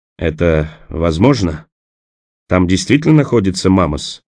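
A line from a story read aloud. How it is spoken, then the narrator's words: Trembling question. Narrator (Russian): дрожащим голосом спросил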